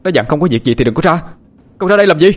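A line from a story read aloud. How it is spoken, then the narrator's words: Frightened shouting. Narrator (Vietnamese): Phương sợ hãi hét lên quát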